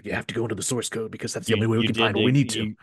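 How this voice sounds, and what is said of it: Low, serious imitation of another person. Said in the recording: “Jeffrey Wright impression ... the lowness, but the seriousness”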